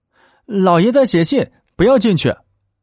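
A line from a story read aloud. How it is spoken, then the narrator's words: Hurried call. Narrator (Chinese): 慌忙…叫道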